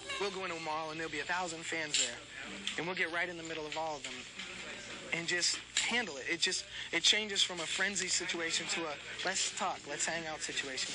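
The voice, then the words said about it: Mild Boston accent. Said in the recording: “kind of a Boston accent.”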